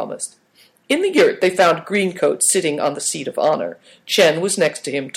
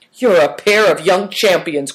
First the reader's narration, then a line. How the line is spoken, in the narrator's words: cried Good Fortune